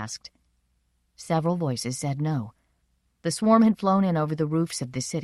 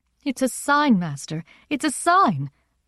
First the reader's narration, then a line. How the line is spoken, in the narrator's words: Maruna's mother cried